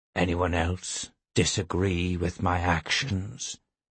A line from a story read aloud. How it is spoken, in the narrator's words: He asked softly